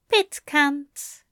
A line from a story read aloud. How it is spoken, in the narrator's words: Aziraphale chuckled